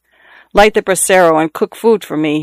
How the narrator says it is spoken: he told her in the same peremptory tone

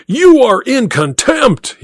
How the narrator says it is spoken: he roared

